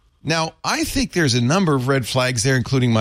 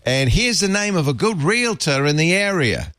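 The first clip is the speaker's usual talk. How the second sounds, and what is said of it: Australian accent with Cockney mix. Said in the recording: “my bad Australian accent ... thought he was Cockney ... That had a mix. That's a pretty good accent.”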